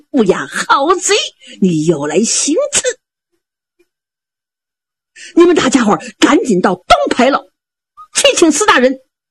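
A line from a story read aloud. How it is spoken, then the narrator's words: Shout. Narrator (Chinese): 蛮南侠喊了一声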